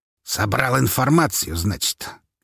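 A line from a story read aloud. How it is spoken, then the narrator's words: Snorting. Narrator (Russian): фыркнул Павел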